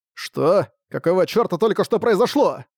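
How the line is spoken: Startled exclamation. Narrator (Russian): воскликнул Арк от неожиданности

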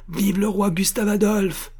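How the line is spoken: Impetuous shout. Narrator (French): cria la voix impétueuse d'Armand Louis

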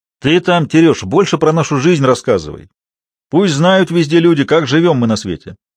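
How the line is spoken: Loud, calling after. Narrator (Russian): вдогонку громко сказал

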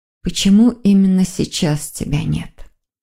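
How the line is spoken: Barely audible whisper. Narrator (Russian): Еле слышно прошептала Маргарита

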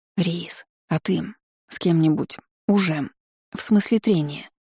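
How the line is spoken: Whisper. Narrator (Russian): прошептала

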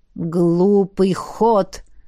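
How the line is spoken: Rustling hiss from darkness. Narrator (Russian): прошипел кто-то в ответ из темноты шелестящим голосом

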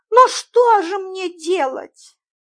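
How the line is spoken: Puzzled, plaintive. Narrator (Russian): недоуменно и жалобно сказала мисс Фридлендер

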